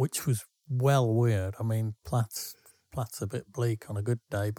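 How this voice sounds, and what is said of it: Usual voice. Nothing is said of it.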